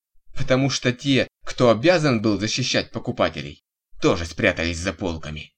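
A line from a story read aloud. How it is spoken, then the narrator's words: Snapped back, losing patience. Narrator (Russian): не выдержал и огрызнулся Олег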